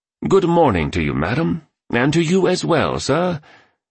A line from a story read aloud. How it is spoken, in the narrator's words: he enunciated in a British accent